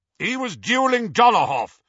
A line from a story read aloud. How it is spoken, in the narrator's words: shouted Aberforth